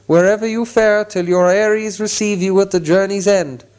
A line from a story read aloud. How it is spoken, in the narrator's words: they cried